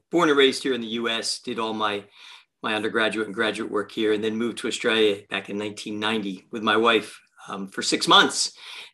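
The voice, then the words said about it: Mixed Australian-American accent. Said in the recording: “I got this really weird accent of where I'm actually an Australian-American”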